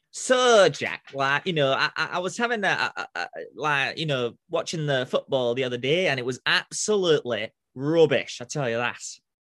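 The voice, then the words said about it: Put-on Northern English accent. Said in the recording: “Your Northern accent videos often sounds a bit like Ian Sterling, the Love Island commentator”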